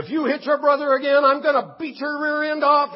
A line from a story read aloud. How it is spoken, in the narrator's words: a father is screaming at his child and saying